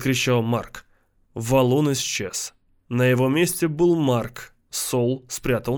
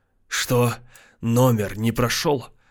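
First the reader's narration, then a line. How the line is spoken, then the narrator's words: Hiss. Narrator (Russian): прошипел он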